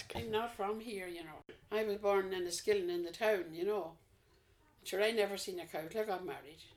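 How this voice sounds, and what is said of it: Non-Leitrim Irish accent. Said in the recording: “it wasn't a Leitrim accent I was listening to”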